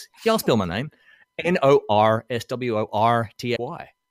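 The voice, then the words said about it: American accent on the letter R. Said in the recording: “I switch on the American accent just for the letter R.”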